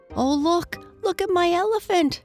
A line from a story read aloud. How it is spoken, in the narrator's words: cried Archie